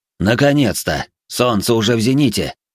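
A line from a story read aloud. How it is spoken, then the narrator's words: Displeased snort. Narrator (Russian): недовольно фыркнул Пингфу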